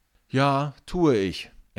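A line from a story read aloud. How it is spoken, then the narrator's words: Replied. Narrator (German): entgegnet Finn und seufzt innerlich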